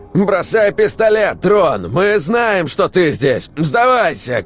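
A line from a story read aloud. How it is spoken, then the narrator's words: Shout. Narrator (Russian): крикнул Митяй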